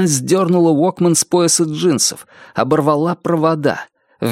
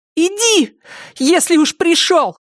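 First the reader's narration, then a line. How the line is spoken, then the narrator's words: Shouting. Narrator (Russian): крикнула Триша медведю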